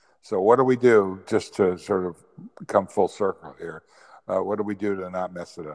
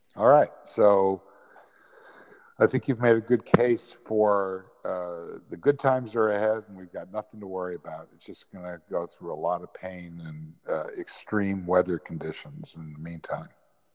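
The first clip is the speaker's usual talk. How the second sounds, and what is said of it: Sarcastic tone. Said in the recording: “I'm being sarcastic.”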